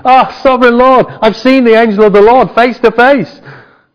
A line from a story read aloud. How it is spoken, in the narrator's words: When Gideon realized that it was the angel of the Lord, he exclaimed